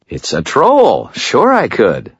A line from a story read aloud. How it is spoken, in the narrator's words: I said cheerfully